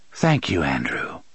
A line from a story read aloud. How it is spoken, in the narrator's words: the dark man said softly